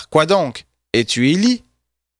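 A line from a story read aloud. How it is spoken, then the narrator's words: Plain. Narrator (French): Et il dit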